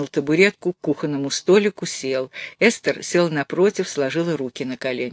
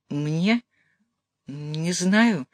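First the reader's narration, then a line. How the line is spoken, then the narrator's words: Bewildered. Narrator (Russian): растерянно ответила Эстер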